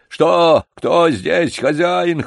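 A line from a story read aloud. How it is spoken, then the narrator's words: Hoarse wheezing. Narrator (Russian): хрипел он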